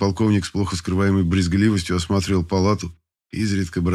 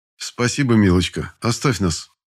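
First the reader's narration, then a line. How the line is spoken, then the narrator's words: Calm, doctor. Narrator (Russian): спокойно произнес доктор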